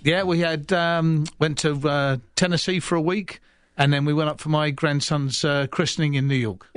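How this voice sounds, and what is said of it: Speaks with a noticeable accent. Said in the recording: “with that accent, I'm sure you fit right in Tennessee up there.”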